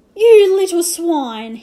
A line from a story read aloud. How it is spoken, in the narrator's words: he howled